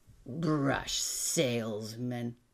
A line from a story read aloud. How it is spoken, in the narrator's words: Art sneered